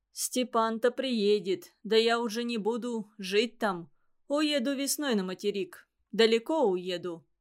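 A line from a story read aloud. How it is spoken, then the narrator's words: Plain. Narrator (Russian): сказал Иван Иванович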